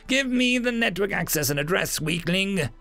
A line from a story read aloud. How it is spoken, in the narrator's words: the demon laughed